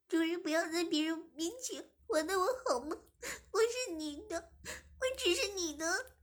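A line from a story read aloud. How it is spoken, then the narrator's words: Crying. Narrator (Chinese): 志敏哭着说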